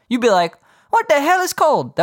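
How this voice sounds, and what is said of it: Vague put-on Spanish accent. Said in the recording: “was that supposed to be a Spanish accent, dude? ... a very ambiguous accent.”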